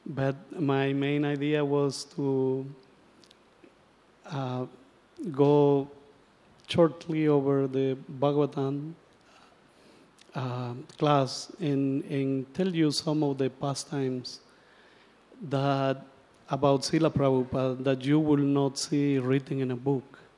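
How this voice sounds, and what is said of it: Hoarse, recovering lost voice. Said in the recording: “my voice is, I lost my voice when I got here. Now it's coming back a little bit.”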